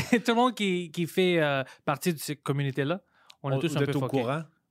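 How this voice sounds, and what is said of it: Mixed non-native accent in French. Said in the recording (French): “mon accent, maintenant, je trouve que c'est une mix”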